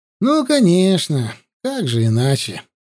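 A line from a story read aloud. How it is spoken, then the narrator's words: Sighing. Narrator (Russian): вздохнул Аршалай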